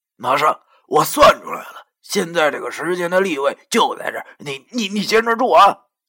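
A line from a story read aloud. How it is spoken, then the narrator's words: Shouted. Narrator (Chinese): 老易对我喊道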